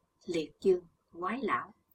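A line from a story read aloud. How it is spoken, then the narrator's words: Involuntary soft exclamation. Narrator (Vietnamese): Bất giác Chí Tôn kêu khẽ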